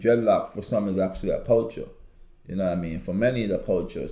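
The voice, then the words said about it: Caribbean accent. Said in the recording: “As you can also tell that I'm Caribbean ... I'm pretty sure they know I got an accent”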